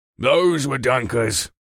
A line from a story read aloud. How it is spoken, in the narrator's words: a low, gruff voice grumbled